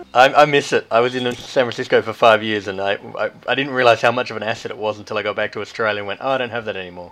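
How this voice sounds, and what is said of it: Australian accent. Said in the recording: “charming Australian accent”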